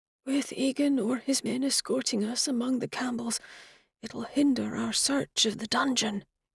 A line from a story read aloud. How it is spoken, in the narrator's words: Craig whispered